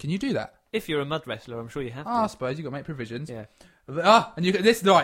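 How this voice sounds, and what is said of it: Usual voice. Nothing is said of it.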